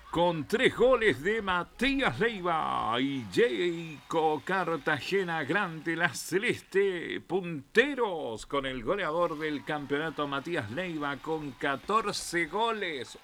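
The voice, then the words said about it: Sports announcer voice. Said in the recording (Spanish): “Voy a poner voz de locuta. Deportivo.”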